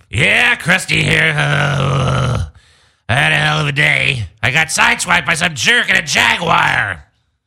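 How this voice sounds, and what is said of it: Poor Krusty the Clown impression. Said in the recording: “It's a terrible Krusty the Clown right now.”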